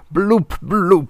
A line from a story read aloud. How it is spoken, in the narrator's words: cried